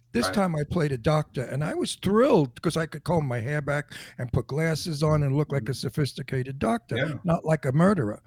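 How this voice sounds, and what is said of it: Strong New York accent. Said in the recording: “my New York accent ... They love my New York accent because it is so mafioso.”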